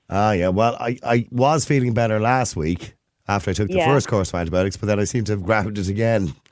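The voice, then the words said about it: Hoarse voice. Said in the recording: “why I sound hoarse, because I'm coughing all the time”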